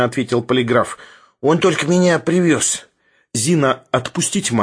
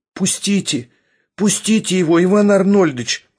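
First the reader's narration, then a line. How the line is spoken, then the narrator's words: Two women pleading together. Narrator (Russian): взмолились одновременно обе женщины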